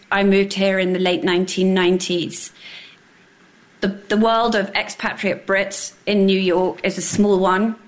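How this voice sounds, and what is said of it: English accent. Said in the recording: “You can hear from my accent. I grew up in England.”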